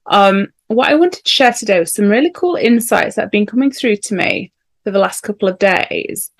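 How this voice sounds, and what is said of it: English accent. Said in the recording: “I know that that is just such an English thing, and I'm very aware that Americans don't say that... I know you love my accent.”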